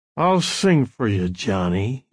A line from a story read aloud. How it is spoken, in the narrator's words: he said, his voice slurring so they could barely be understood